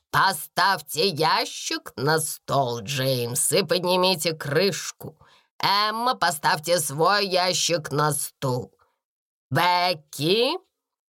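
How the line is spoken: Sudden stern raised voice. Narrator (Russian): Вдруг строго сказала она, возвысив голос

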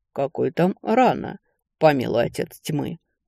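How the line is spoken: Angry sneering snort. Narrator (Russian): фыркнул Рев, скривив губы в злой усмешке

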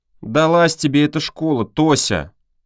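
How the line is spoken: Grumbling. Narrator (Russian): проворчал Мотька

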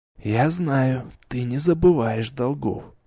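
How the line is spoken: Whisper. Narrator (Russian): прошептал я

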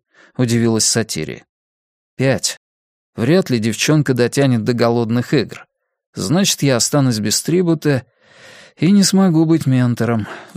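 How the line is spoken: Sighing. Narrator (Russian): вздохнул Кориолан

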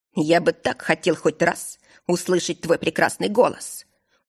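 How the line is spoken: Muffled mumble. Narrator (Russian): Уткнувшись носом в белоснежные волосы, пробормотал владыка

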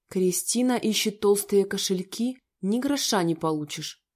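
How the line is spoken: Close hiss. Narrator (Russian): прошипел ей в губы

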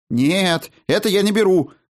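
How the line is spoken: Silent mental shout. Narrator (Russian): мысленно закричал я

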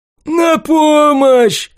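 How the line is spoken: Brat yelling. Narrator (Russian): заорал мелкий паршивец

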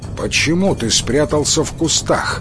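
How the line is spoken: Stern question. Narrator (Russian): строго спросил атаман у Кензо

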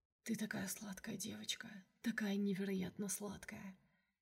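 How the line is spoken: Whisper. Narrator (Russian): шептал мне в волосы

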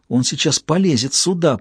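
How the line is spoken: Whispered. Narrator (Russian): прошептала Эбигейл

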